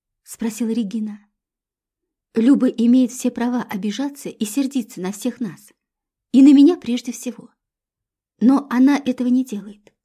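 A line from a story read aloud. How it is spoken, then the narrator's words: Plain. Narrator (Russian): сказал Алексей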